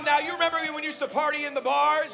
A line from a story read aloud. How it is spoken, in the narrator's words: Everyone shouted